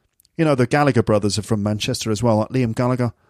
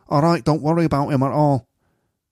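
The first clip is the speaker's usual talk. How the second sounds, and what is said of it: Poor Mancunian accent impression. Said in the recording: “He sounds so Mancunian there like that ... It's a terrible impression”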